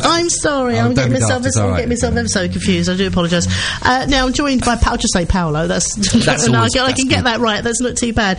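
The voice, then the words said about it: Cockney accent. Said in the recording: “I've got a Cockney accent.”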